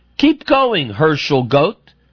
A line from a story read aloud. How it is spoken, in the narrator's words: A few of them even yelled to him laughingly